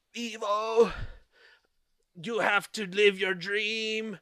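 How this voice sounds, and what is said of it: Attempted old lady voice. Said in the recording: “I'm trying to do an old lady voice, but I'm not very good at it.”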